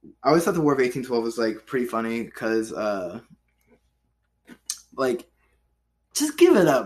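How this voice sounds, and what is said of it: Usual voice. Nothing is said of it.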